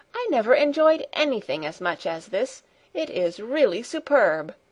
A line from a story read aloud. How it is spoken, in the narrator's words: cried Grandmamma two or three times over